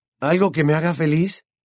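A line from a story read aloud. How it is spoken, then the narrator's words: Hoarse reply. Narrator (Spanish): repuso Harry con voz ronca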